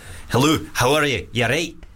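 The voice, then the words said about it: Put-on Scottish accent. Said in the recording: “Scottish”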